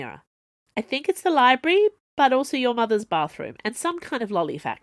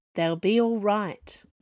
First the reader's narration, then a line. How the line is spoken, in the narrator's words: Zed said, in a low voice